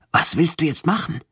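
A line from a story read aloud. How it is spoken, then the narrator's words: Whispering. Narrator (German): flüsterte Najim, der die ganze Zeit mit mir zusammen auf das Display mit dem Sprung starrte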